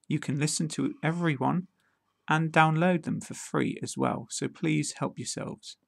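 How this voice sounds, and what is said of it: British accent. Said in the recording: “I'm going to practice the pronunciation of common musical instruments in a British accent”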